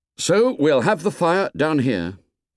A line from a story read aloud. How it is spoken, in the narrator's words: said Ralph